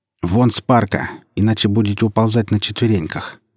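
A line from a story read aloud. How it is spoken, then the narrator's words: Cold tone. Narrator (Russian): холодным тоном произнес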